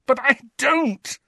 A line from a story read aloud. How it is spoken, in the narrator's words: said Harry in a strangled voice